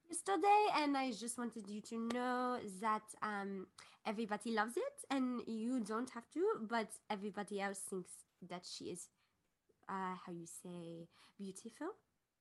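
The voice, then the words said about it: Put-on French accent. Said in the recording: “my French accent”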